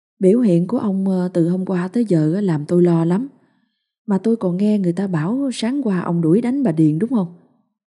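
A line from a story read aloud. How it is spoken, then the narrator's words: Sighing. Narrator (Vietnamese): Bà Quanh thở dài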